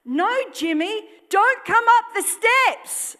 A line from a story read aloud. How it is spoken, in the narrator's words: Aretha shouted